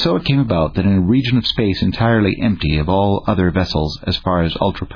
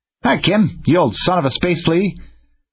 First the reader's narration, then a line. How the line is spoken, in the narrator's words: A general yell arose